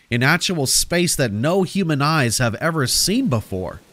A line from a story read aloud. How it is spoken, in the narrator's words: he chuckled